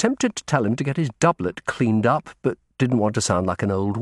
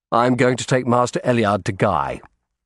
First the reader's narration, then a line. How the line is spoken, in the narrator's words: I said